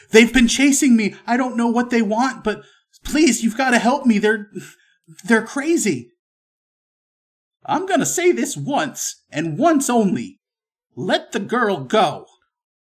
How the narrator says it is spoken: she's going to scream out and say

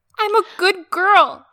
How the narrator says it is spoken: Jane whimpered

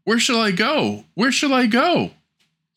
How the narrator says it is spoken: anxiously flying hither and thither, he cried

